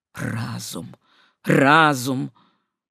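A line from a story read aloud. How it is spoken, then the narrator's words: Tearful, grieving whisper. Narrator (Russian): Слезы навернулись на глаза доктора Шассеня, вероятно, при воспоминании о его дорогих умерших, и он, в свою очередь, прошептал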